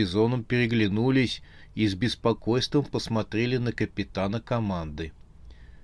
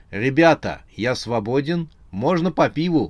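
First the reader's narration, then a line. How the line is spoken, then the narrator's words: Exclamation. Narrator (Russian): воскликнул он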